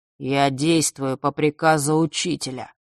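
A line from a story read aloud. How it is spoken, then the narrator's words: Muffled, hollow. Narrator (Russian): глухо произнес он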